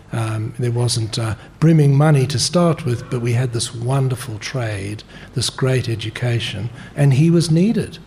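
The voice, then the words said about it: Slight South African accent. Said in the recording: “I can still hear a touch of the South African accent”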